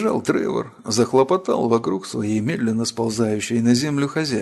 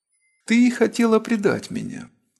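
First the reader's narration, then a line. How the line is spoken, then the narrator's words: Calm. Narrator (Russian): спокойно произнесла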